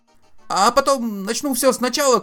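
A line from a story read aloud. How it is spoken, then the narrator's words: Shouting. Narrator (Russian): кричал Артур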